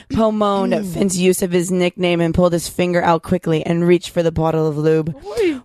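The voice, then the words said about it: Sultry seductive reading voice. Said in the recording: “Your sexy voice? ... My sexy voice.”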